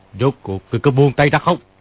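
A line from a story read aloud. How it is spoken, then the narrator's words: Angry shout. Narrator (Vietnamese): Kim Luân Pháp Vương gỡ vòng tay của Ni Ma Tinh ra, quát lên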